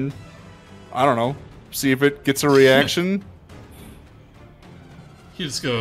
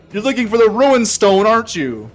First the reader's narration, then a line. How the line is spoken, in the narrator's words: shouts up at Ebon Death